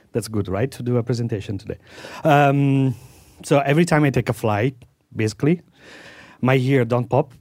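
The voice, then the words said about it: Congested, strained voice. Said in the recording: “sorry for my voice ... I just developed this little nose problem and ear problem, my right ear, and throat problem ... it's hard to breathe through my nose”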